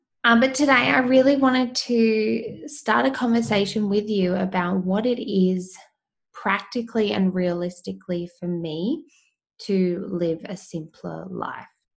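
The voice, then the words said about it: Voice not back to normal. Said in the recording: “excuse my voice. I'm still getting over this cold that I've had ... my voice just cannot return to normal”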